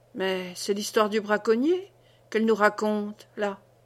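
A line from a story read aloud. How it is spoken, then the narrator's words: Murmured. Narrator (French): murmura-t-il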